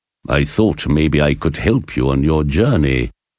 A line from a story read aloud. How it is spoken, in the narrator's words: answered the professor